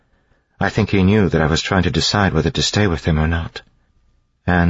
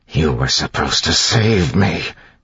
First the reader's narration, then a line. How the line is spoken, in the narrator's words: he hissed